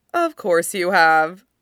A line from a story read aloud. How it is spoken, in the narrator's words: Peter says, laughing